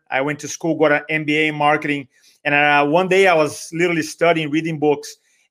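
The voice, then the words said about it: Brazilian-accented English. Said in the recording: “as some of you can hear, my accent from Brazil”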